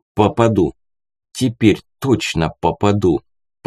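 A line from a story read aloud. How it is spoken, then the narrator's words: Whispered. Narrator (Russian): прошептал я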